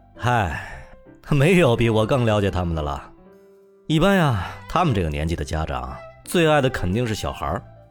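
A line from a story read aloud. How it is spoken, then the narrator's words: Half-smiling. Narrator (Chinese): 他似笑非笑的说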